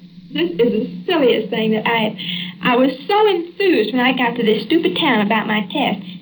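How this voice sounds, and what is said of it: Texas accent. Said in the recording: “having a Texas accent”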